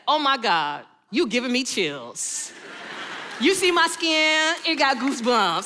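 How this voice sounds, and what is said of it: Put-on Atlanta accent. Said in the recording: “in my best Atlanta voice.”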